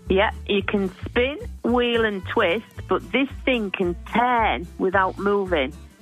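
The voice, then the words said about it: Speaks with an accent. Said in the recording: “without the accent”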